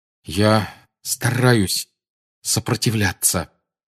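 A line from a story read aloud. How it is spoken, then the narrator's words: Forced through clenched teeth. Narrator (Russian): выдавил Гарри сквозь стиснутые зубы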